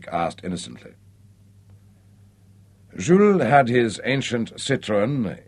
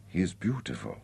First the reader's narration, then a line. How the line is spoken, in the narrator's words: she whispered